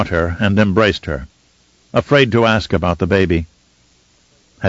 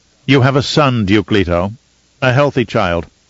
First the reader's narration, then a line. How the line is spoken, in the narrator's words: Mohiam said curtly